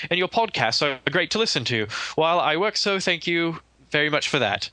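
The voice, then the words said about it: Briefly put-on accent. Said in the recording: “I should change my accent. ... I can't hold it for long.”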